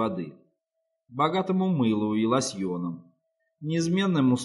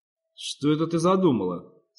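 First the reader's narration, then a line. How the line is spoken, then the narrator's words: Plain. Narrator (Russian): спросила Низа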